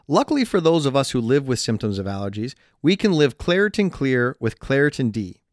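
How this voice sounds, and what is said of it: Stuffy, congested nasal voice. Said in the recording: “why does he sound that way? ... that's just your voice because you're so stuffed up ... the old allergy congested accent ... listen to you speak like this”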